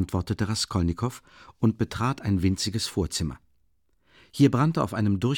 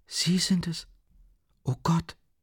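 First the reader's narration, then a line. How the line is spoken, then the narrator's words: Weak cry. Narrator (German): rief Sonja mit schwacher Stimme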